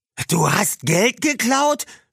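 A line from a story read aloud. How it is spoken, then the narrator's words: Stunned shout. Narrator (German): schrie Tony fassungslos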